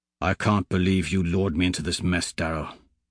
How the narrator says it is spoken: Lorne mutters

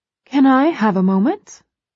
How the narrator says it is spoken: she asks brightly

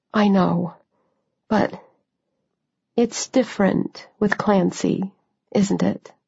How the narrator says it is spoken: I said quietly

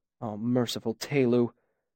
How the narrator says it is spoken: Simon muttered behind me

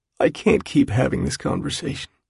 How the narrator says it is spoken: he says at last, his voice scraped and hoarse

